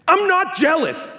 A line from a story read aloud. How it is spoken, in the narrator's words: Ben shouted